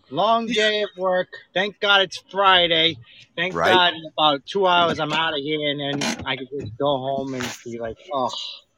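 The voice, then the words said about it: Boston or New York-sounding accent. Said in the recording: “you sound like you have a Boston accent. ... Actually, I've been told I have like a New York accent a little bit, but Boston, hey, it's a little bit of mix.”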